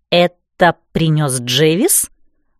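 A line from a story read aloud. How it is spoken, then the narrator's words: Choked, anxious words. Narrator (Russian): выдавила, чувствуя, как сердце скакнуло в груди и уперлась куда-то в горло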